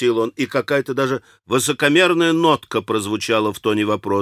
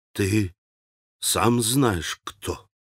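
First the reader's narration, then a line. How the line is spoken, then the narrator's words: Quiet, heartfelt. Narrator (Russian): Тихо и проникновенно проговорил Алеша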